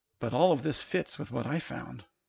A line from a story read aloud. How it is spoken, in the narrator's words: whispered Tyler in the now silent room